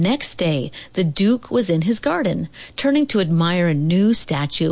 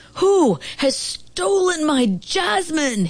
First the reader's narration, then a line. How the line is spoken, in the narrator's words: he roared